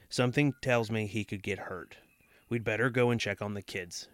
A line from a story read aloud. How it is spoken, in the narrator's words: she said calmly